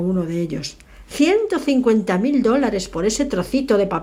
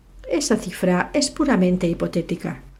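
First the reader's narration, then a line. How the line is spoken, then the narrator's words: Plain answer. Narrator (Spanish): respondió Hobart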